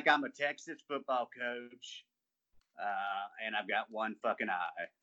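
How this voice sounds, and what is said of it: Put-on Southern US accent. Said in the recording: “that, like, high school football coach from the South accent”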